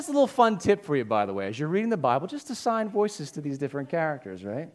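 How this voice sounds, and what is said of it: Usual voice. Nothing is said of it.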